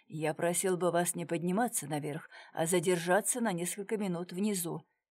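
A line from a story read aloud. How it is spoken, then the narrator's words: Mumbled. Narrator (Russian): пробормотал комиссар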